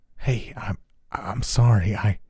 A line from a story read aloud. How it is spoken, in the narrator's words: whisper